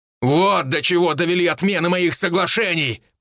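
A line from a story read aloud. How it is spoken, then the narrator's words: Shouted. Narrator (Russian): прокричал Аарон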